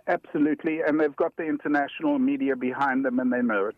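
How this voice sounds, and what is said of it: South African accent. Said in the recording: “I can tell there's an accent there. ... I happen to also come from South Africa originally.”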